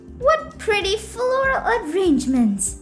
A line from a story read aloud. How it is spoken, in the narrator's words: she exclaimed